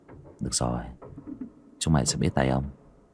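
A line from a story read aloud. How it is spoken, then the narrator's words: Muttering. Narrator (Vietnamese): Bác cổ lẩm bẩm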